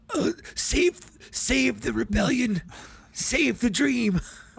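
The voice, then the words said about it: Saw Gerrera character impression. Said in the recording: “do a good Saw Gerrera impression”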